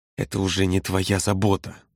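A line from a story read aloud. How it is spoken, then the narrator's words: Hissed. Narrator (Russian): прошипел Володя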